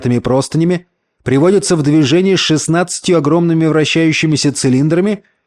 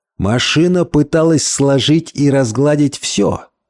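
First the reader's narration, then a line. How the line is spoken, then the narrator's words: Muffled, dull voice. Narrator (Russian): глухо произнес Хантон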